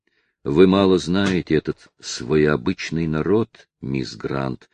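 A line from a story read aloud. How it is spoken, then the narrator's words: Plain. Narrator (Russian): сказал он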